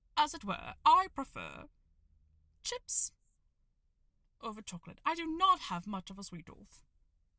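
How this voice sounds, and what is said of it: 1940s Mid-Atlantic accent. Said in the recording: “an updated Mid-Atlantic or Transatlantic accent ... a Mid-Atlantic accent from the 1940s”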